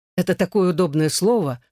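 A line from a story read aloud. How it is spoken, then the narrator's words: Exclaiming. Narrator (Russian): воскликнул я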